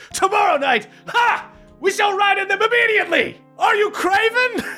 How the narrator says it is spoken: everybody hears him loudly

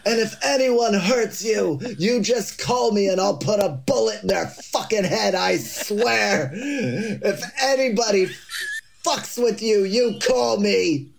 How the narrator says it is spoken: wildly yelling

